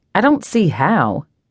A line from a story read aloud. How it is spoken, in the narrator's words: says dryly